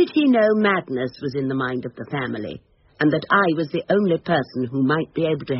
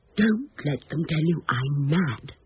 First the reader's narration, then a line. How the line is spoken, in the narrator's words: the old man, almost whispering